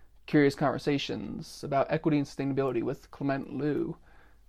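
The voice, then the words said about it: Announcer-style radio voice. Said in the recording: “There's my radio voice for it.”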